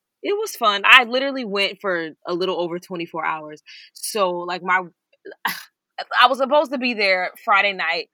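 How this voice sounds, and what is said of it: Hoarse voice. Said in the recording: “as you all can hear, I'm hoarse.”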